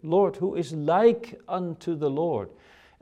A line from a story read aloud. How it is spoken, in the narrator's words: the biblical authors exclaim in their worship